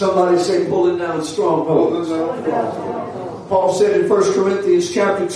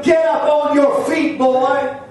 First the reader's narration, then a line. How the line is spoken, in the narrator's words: when Paul can't contain himself anymore, Paul yells out to him